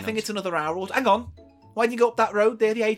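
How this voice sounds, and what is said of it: Put-on accent in character voice. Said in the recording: “whenever you do a fucking accent”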